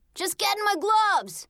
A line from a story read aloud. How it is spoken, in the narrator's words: Uncle Jay yelled back